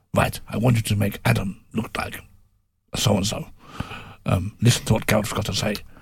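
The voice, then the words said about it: Imitates another person's voice. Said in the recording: “Sorry, I've never great accent, as you can tell. ... you're very good at these.”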